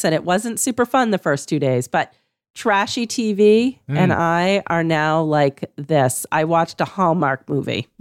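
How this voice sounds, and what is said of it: Slightly weakened, worn voice. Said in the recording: “I have COVID and, you know, my voice has gone a little bit”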